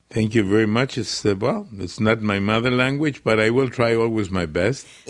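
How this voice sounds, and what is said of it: Non-native English with an accent. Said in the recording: “it's really wonderful to hear you speaking in English ... You have a beautiful accent.”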